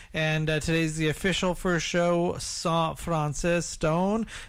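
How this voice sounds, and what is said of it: Slight put-on French accent. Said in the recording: “a little bit of French accent there”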